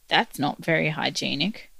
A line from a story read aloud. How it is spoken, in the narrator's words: grumbled